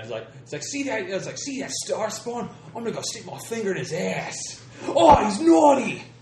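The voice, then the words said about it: Badly done put-on accent. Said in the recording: “That accent is bad.”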